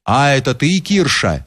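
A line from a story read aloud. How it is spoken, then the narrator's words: Plain. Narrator (Russian): сказал Алексей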